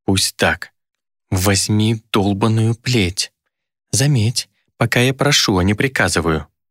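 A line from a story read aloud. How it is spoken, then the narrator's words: Demon, through gritted teeth. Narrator (Russian): процедила демон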